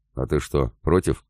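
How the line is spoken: Skeptical snort. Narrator (Russian): хмыкнул Добрыня

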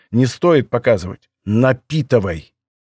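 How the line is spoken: Angry command. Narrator (Russian): приказал я зло

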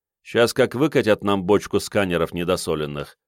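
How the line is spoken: Grumpy mutter. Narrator (Russian): пробурчал Сашка, пребывающий от чего-то в скверном настроении

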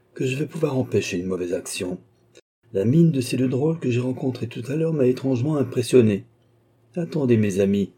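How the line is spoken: Murmuring. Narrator (French): murmura-t-il

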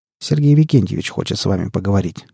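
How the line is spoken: Plain. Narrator (Russian): ответил Николай

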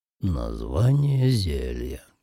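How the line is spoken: Muttered under breath. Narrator (Russian): пробурчал он себе под нос

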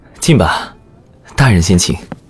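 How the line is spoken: Soft sigh, suppressed laugh. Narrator (Chinese): 姚文玉对周贵轻叹一声，又忍俊不禁

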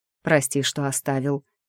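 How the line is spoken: Quiet reply. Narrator (Russian): тихо ответил

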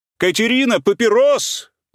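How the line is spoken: Shouting. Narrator (Russian): закричал Павел Петрович

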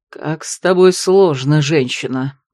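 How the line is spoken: Growling. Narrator (Russian): прорычал Ролан

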